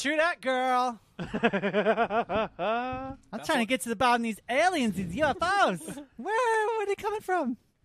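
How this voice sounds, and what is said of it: Stereotyped camp voice impression. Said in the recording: “I've got a pretty good a gay impression. I'm pretty good at it.”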